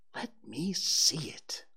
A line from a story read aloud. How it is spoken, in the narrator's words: she hesitantly whispered